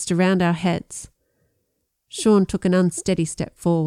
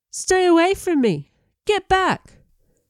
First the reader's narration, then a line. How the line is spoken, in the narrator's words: Brian cried